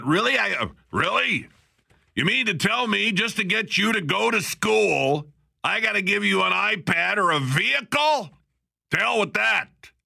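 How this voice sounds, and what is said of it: Imitates another person's voice. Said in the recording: “I'm, going to sound like my dad here ... That's my impersonation of my dad”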